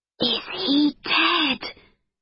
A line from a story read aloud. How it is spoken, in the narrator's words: whispered Amber